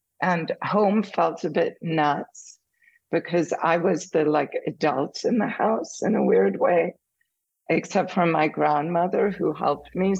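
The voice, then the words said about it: Slight German accent. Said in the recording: “I have a slight German accent.”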